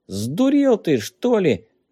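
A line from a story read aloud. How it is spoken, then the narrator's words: Yelled. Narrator (Russian): заорал Ванюшка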